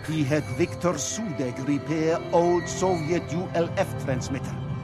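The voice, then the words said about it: Bad fake Russian accent. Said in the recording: “that is the worst Russian accent. It's worse than my Russian accent, which is pretty bad. ... that was bad.”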